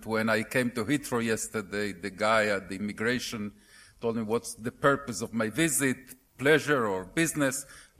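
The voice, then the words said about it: Heavy Argentinian accent in English. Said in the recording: “my less than perfect English with a heavy Argentinian accent”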